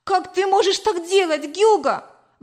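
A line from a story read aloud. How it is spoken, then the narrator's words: Exclaimed. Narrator (Russian): воскликнула я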